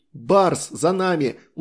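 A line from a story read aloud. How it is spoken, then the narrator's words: Shouted. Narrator (Russian): успел крикнуть он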